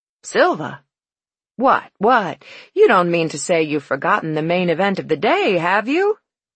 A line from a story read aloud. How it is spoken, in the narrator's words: He laughed